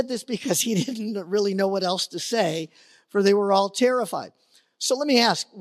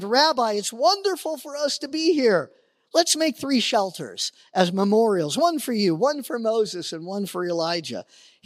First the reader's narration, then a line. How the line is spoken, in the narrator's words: Peter exclaimed